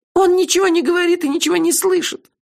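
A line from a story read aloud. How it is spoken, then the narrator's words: Frightened. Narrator (Russian): испуганно подтвердила Кенлех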